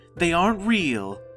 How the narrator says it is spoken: Tamara yelled over the noise

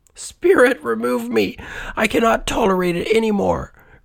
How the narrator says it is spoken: cried the Scrooge

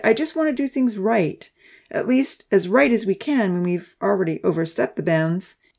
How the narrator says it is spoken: he sighed

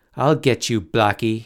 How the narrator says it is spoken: he shouted

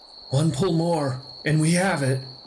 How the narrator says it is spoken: one of them forgot the necessity of silence and shouted out

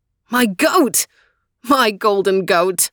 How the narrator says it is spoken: cried in delight

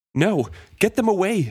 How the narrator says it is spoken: cried out

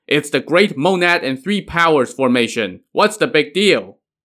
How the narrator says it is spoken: Song Jiang shouted

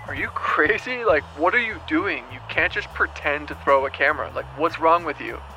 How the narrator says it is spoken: my AC like shouting back

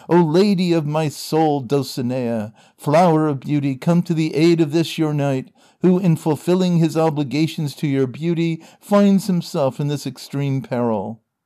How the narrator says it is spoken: Don Quixote, feeling the weight of this prodigious blow, cried aloud, saying

